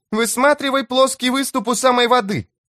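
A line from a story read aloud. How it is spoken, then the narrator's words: Shout. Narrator (Russian): крикнула она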